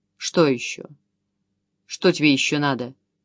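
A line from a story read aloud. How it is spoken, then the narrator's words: Gruff but good-natured. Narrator (Russian): спросил командир угрюмым тоном, в котором нетрудно было разобрать известную долю добродушия и доброжелательства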